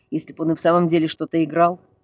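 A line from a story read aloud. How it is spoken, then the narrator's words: Grumbling. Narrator (Russian): проворчал Ник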